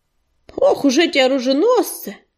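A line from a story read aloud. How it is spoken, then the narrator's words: Grumbling. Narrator (Russian): проворчал Корявый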